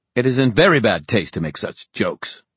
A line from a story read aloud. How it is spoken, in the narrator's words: Gladstone snapped